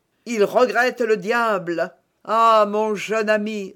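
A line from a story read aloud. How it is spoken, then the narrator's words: Moaning. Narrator (French): reprit en gémissant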